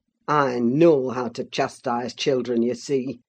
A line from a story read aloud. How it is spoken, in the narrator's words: said the scoundrel, grimly